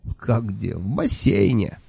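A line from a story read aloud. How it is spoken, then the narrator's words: Laughing. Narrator (Russian): рассмеялся Кофа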